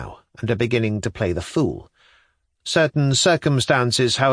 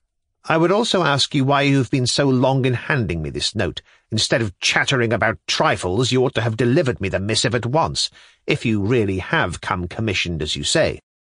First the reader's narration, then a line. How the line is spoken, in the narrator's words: added sharply